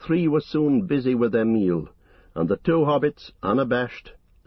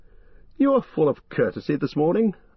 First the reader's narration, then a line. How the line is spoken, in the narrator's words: laughed Legolas